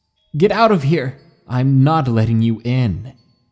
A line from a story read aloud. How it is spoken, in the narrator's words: I screamed at the top of my lungs